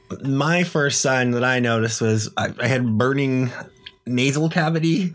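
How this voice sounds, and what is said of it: Slightly congested, sick-sounding voice. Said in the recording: “I'm still not 100% today. You could probably hear it in my voice a little. ... I can.”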